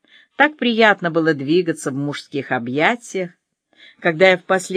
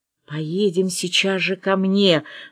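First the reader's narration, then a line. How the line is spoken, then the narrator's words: Excited whisper. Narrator (Russian): возбужденно шептал Вадим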